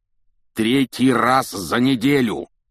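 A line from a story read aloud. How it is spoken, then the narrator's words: Roaring. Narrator (Russian): проревел он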